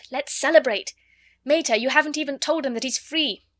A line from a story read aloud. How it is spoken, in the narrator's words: Ring cried